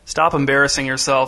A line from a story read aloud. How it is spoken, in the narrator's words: said the boy's dad in a flat voice